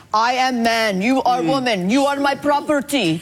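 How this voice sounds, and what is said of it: Put-on Russian-sounding accent. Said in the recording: “This is what they sounded like in ancient Rome. ... Roman accent, ... Apparently Rome was Russia.”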